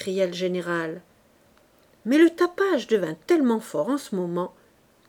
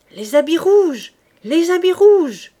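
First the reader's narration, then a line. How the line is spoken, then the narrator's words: Joyful shouting soldiers. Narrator (French): criaient avec joie les hussards de l'escorte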